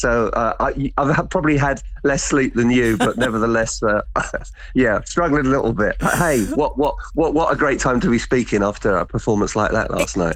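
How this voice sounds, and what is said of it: Slightly hoarse voice. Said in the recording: “you can probably hear my voice is a little bit hoarse”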